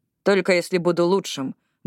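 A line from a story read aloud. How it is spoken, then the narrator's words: Muttered. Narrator (Russian): буркнул Коди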